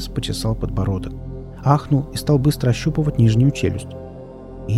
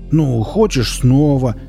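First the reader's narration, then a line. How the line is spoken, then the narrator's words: Screaming even louder. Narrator (Russian): Девушка завопила пуще прежнего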